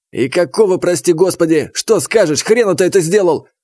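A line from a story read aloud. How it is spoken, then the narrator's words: Yelling right in face. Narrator (Russian): Заорал он, остановившись в паре сантиметров от моего лица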